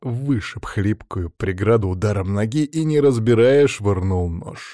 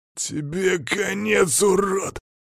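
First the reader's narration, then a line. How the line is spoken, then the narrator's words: Big man hissing. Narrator (Russian): прошипел здоровяк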